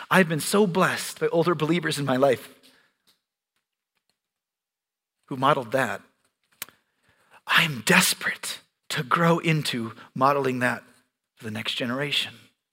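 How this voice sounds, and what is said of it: Choked-up, emotional voice. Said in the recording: “get choked up. I guess I do know why I get choked up”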